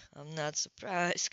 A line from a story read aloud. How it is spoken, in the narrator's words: Coltrane murmured